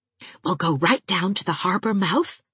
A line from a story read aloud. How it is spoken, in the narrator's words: whispered Anne